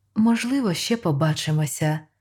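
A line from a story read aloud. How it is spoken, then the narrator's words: Gentle. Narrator (Ukrainian): лагідно промовила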